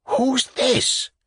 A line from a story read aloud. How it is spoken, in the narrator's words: whispered Ivan Andreyitch